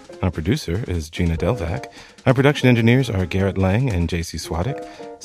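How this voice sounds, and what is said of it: Announcer-style podcast voice. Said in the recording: “podcast voice”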